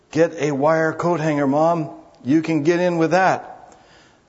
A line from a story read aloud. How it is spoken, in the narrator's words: In a hoarse voice, he whispered